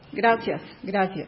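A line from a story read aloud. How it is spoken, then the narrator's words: Uneasy forced half-murmur. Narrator (Spanish): Sintió inquietud, zozobra, sonrió forzadamente y sin pararse, sino a medias murmuró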